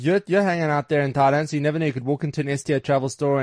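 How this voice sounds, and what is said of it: South African accent. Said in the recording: “Good to hear some South African accents.”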